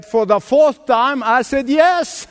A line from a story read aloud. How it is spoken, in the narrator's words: she yelled out and she said